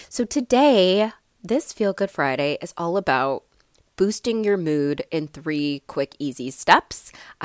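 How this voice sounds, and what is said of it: Stuffy, congested voice. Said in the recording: “I sound a little bit off ... sounding so stuffy ... I am getting over being under the weather ... I sound stuffy.”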